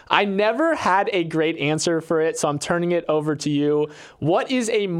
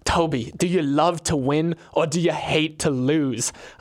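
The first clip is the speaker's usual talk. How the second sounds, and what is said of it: Put-on British accent. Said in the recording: “he was British, so this is my British accent”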